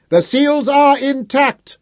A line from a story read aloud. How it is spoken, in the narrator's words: Sir Francis shouted to reassure the watchers